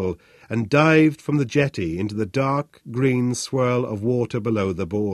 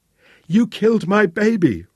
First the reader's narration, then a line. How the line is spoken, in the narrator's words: Rosa shrieked